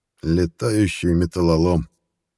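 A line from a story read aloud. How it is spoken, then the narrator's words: Careless creaky voice. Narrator (Russian): небрежно проскрипел наследник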